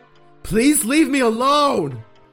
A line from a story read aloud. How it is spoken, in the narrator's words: Bill shouting from back at the workshop